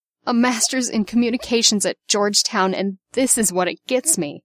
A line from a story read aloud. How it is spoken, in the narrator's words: she moaned